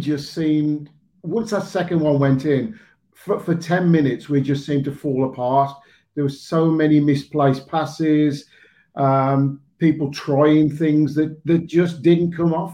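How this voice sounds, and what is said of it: Hoarse voice. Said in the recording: “my voice is still hoarse. ... I can hear it, mate. I can hear it.”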